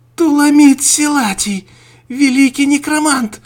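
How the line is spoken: Shouting. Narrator (Russian): закричала Мария

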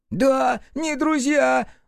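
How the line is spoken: Screamed. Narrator (Russian): завопил Пепелюха

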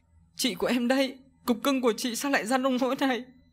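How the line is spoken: Sobbing speech. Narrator (Vietnamese): Nhỏ Hân khóc nức nở mà nói

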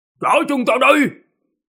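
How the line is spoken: Shout. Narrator (Vietnamese): Ông ta quát

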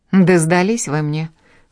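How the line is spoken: Scornful snort. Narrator (Russian): фыркнула Жанна

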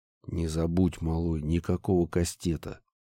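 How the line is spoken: Quiet. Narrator (Russian): тихо произнес я

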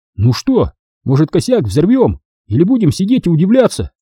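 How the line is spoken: Exclaiming. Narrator (Russian): сказал Пипок и воскликнул

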